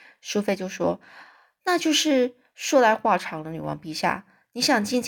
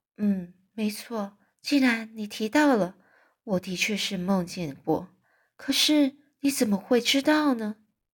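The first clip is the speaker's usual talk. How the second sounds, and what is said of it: Quiet, hushed voice. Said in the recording (Chinese): “小声的说”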